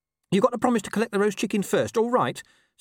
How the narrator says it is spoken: said Gaspard urgently

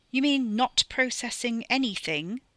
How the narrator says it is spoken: Carrie snapped down the phone

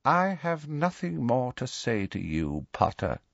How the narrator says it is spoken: he said quietly

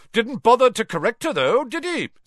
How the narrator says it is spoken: said Amos Diggory, loudly enough for Harry to hear

